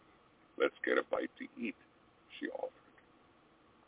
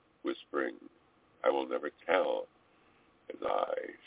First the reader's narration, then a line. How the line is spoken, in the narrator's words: she purred